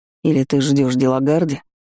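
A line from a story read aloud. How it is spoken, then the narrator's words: Snorting. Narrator (Russian): Фыркнув, Эйлин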